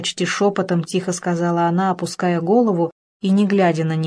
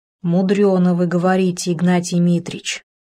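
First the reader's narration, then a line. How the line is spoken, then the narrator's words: Said with a sigh. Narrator (Russian): вздохнув, сказала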